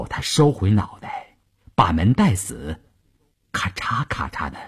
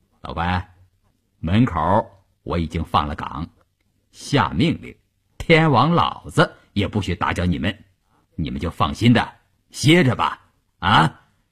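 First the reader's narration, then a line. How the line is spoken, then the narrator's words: Cheerful. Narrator (Chinese): 张如萍笑嘻嘻地探进脑袋来说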